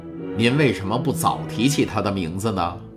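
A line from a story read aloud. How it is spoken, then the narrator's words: Plain. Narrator (Chinese): 国王问道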